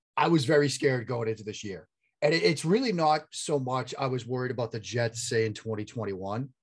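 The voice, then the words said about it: Boston accent. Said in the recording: “You can hear the Boston accent.”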